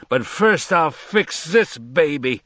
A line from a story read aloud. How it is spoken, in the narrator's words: he shouted